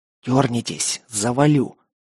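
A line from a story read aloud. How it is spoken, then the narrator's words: Hissed. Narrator (Russian): зашипел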